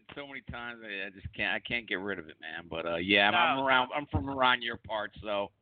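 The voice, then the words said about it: Noticeable local regional accent. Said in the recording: “I think my accent kind of gives it away, man. ... I've tried to ditch the damn accent ... I could hear you two words in. I could tell you were from this area.”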